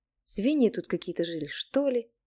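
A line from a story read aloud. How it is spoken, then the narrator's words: Grumbled. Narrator (Russian): пробурчала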